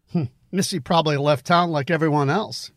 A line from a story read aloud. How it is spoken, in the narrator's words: said with a laugh